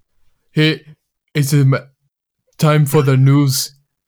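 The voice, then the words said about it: Imitates another person's voice. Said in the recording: “it's more of an impression at this point ... Arnold Schwarzenegger”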